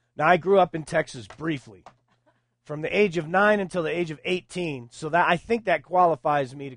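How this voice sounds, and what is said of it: Usual voice. Nothing is said of it.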